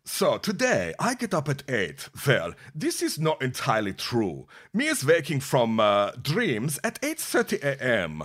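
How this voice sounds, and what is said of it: Put-on Russian accent. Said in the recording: “this is the Russian one. So let me put on my Russian accent.”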